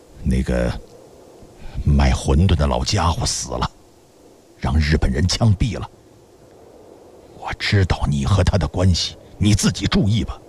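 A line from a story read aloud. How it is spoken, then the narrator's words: Trembling low voice. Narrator (Chinese): 苟敬义嘴唇微微颤动着，低声说道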